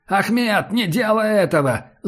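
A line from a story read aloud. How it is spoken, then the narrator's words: Shout from behind. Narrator (Russian): закричали сзади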